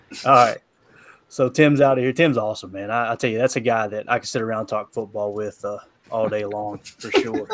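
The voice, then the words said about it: Speaker's own regional accent. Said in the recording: “with my accent, it probably sounded like Ron”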